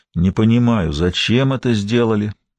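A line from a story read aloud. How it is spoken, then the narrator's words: Grumbling. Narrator (Russian): проворчал Бен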